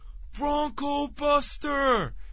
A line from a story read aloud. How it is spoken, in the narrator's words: he yells